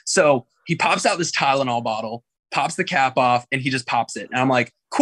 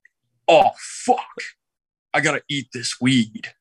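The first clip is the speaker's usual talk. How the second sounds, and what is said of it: Imitates another person's voice. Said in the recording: “I'm going to do my best Ian impression. I promise this is like spot on.”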